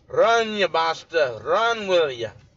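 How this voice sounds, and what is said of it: Thick Scottish accent, roaring. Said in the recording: “the Scotsman stands up and roars with the crowd in his thick accent”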